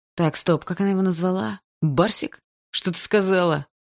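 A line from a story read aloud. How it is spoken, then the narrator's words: Growling. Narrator (Russian): прорычал парень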